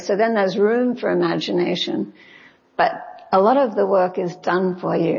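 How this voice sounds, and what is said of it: Australian accent. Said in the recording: “I can tell from your accent that you're not from Mississippi or Alabama. You're from Australia.”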